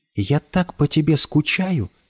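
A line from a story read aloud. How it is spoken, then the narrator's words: Whispering. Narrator (Russian): шептала она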